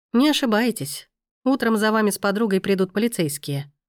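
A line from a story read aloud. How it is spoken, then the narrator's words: Calm explanation. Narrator (Russian): также спокойно объяснил он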